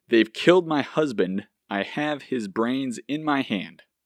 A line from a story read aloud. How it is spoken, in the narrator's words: Jackie exclaim